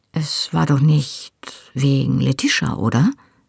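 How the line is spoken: Hesitant question. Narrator (German): fragte ich zögernd

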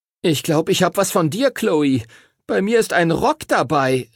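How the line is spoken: Horrified shout. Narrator (German): rief Timothy entsetzt

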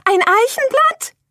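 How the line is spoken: Horrified scream. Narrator (German): schrie Irmelina entsetzt

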